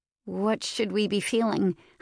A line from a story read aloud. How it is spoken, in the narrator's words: I asked hesitantly